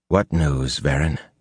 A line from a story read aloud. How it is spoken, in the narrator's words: said quietly